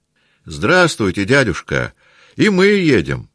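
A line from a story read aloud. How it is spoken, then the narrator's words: Shouted. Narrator (Russian): прокричал Петя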